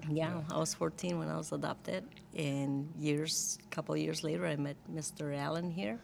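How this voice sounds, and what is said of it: Speaks with a non-native accent. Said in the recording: “that's why I have an accent still, because I was older when I came here”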